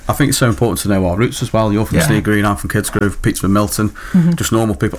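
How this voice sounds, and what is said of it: Stoke-on-Trent English accent. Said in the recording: “I can't hide my accent, I'm born and bred Stokey”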